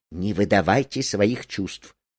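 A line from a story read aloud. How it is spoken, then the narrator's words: Quick whisper. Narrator (Russian): Марго быстрым шепотом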